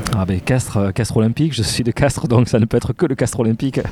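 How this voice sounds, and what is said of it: Regional French accent. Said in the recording (French): “On un peu à l'accent. ah oui.”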